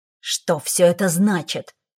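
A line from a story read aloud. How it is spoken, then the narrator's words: Displeased growl. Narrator (Russian): недовольно рыкнул Седрик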